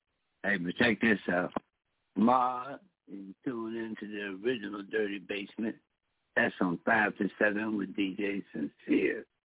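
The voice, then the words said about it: Hoarse, mostly lost voice. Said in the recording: “My voice is kind of gone”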